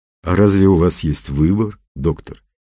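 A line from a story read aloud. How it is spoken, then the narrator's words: Sad. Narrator (Russian): печально сказал Немоляев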